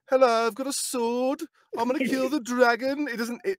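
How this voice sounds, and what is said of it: Mock Birmingham Brummie accent. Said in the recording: “we were talking about Birmingham before ... I'm sorry to all the Brummies out there, but the accent's not sellable”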